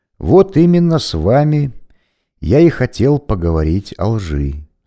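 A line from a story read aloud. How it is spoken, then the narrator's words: Plain. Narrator (Russian): сказал священник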